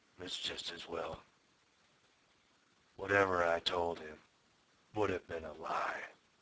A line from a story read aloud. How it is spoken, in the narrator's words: he said softly